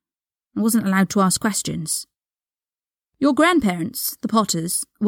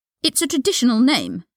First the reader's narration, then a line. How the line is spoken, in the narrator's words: Draco snapped